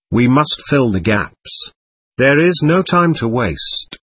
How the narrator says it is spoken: Tobias decided calmly

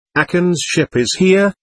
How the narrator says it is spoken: called out

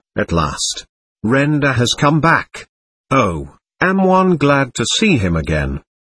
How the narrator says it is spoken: S, with a sudden gasp, then a deep sigh of pleasure

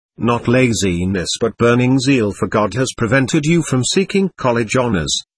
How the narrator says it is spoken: my guru said kindly

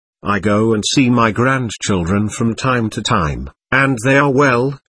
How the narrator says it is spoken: she said, smiling sadly

